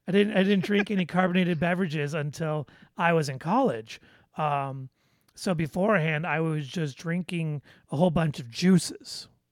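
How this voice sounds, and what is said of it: Slight Midwestern American accent. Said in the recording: “listen to my little Midwest accent.”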